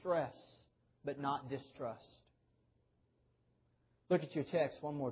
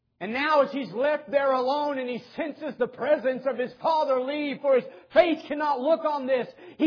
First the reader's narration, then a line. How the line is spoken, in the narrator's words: He cries out